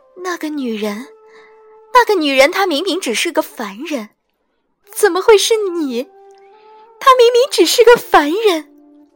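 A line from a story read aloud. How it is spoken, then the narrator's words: Half crying, half laughing. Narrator (Chinese): 似哭似笑道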